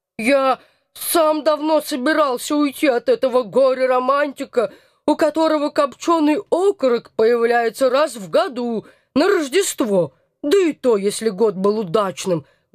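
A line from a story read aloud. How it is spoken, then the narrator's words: Nasal pitiful whining. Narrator (Russian): гнусаво изливался толстяк, давя на жалость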